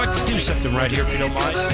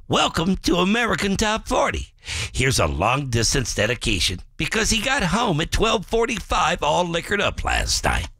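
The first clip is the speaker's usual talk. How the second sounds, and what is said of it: Imitates another person's voice. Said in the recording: “my Casey Kasem impression”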